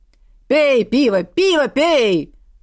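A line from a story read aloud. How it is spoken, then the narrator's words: Rhythmic bellowing chant. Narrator (Russian): Традиционно орал Грым, размахивая в такт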